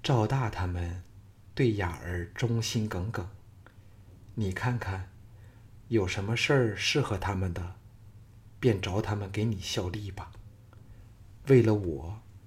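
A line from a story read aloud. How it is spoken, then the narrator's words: Gentle, soft. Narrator (Chinese): 赵雅柔声说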